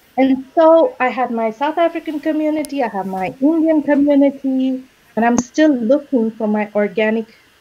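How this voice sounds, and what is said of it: Mixed, partly Indian accent. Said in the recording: “My accent is not entirely Indian. Right? I don't sound American. I don't sound South African.”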